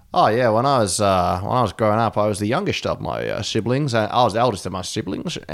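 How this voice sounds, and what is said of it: Australian accent with slight Dutch. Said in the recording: “he has the maddest accent in the world ... he's got a very Australian accent with very little bits of Dutch come through ... it's almost like a Sean Connery Australian accent.”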